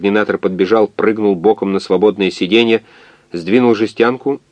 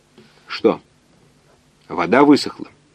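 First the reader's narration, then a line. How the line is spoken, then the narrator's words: Indifferent question. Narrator (Russian): спросил координатор безразличным тоном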